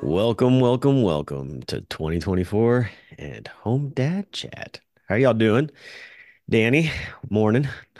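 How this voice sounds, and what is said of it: Deep radio voice. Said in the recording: “You got that deep voice, that deep radio voice for you.”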